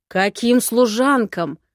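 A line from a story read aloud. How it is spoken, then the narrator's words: Roared. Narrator (Russian): взревел Харш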